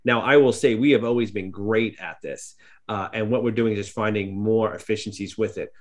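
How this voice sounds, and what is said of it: New York accent. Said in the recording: “you can hear my accent here, my mother could go see here from New York”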